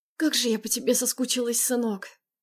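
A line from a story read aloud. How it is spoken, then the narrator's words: Breathy. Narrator (Russian): Выдохнула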